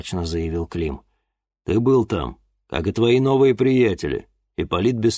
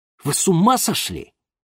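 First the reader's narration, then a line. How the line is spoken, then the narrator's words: Irritated exclamation. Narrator (Russian): раздраженно воскликнул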